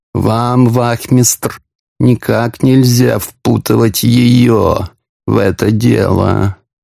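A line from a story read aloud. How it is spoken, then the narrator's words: Sympathetic purr. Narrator (Russian): участливо промурлыкал Порфирий Петрович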